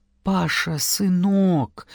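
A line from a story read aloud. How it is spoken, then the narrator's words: Whispered. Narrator (Russian): прошептал он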